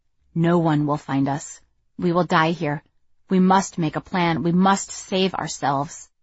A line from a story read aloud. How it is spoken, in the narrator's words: the cold-blooded voice that had urged me to save my tears was always whispering in the back of my mind